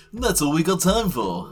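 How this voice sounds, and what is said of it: Mock radio presenter voice. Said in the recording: “I think you need more of a radio voice, though.”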